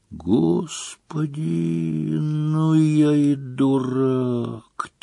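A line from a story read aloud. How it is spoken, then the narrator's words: Quiet. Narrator (Russian): тихо произнес он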